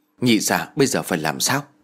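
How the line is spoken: Quiet question. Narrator (Vietnamese): nhỏ giọng hỏi

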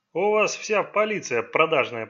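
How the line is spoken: Grumbling. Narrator (Russian): проворчал Коу

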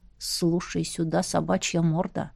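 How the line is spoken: Hissed through teeth. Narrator (Russian): процедил

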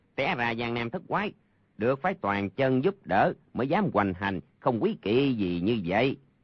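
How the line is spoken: Shrill voice. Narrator (Vietnamese): một người the thé nói

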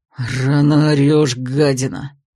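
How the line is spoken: Angry male growl. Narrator (Russian): Злобно рыкнул мужчина

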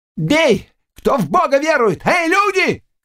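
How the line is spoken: Shouting. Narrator (Russian): крикнул Чеплинский

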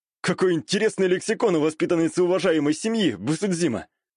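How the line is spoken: Mocking snort. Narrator (Russian): хмыкнул я

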